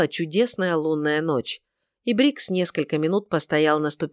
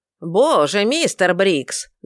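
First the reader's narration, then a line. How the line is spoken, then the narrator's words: Loud exclamation. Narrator (Russian): громко выкрикнула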